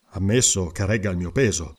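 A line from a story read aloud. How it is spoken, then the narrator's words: Grumbled. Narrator (Italian): brontolò Conan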